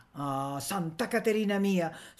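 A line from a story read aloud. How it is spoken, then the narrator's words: Woman sighing. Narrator (Italian): sospirò la donna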